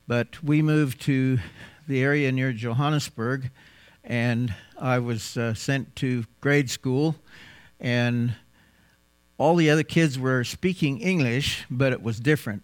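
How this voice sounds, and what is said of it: American accent. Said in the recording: “probably spoke pretty much with the accent that I'm speaking right now ... my American accent ... you sound just like Roy Rogers”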